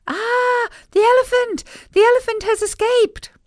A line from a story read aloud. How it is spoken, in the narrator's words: people screaming